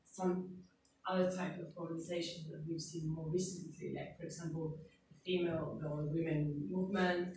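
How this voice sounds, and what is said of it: Argentinian accent. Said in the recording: “I'm obviously Argentinian with my accent”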